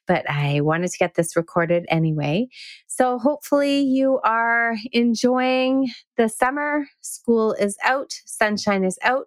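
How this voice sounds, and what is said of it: Slightly hoarse voice. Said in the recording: “I apologize for my voice. I have a little bit of a hoarse voice today”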